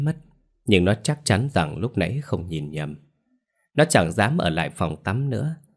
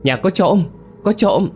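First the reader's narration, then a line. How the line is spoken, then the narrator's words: Alarmed loud scream. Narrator (Vietnamese): Nó tưởng trộm nên hét toáng lên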